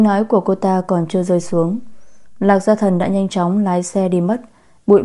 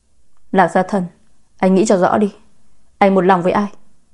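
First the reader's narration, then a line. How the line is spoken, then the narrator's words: Loud shout. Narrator (Vietnamese): Lạc Gia Hân ... hét lớn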